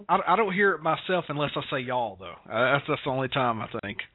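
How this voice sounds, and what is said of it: Southern American accent, Georgia. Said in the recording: “you have the best Southern accent ever ... South Georgia”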